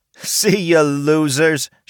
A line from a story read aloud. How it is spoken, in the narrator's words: said, while laughing loudly